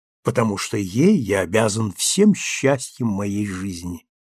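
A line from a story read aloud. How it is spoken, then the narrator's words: Quiet. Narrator (Russian): сказал он тихо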